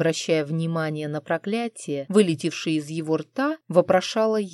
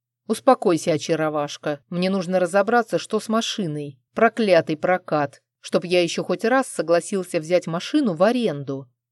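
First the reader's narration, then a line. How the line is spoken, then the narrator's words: Angry growl. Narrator (Russian): рычал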